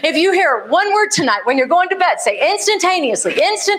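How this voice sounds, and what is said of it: Texan accent. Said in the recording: “there was that Texan accent. That hasn't come out in a while.”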